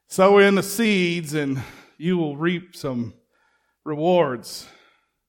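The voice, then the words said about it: Put-on evangelist preacher accent. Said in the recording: “I got to do it with a little bit of accent there.”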